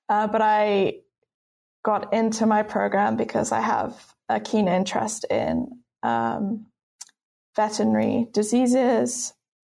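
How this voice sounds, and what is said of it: British accent. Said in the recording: “As you can tell from my accent, I'm not from the US. I'm actually British.”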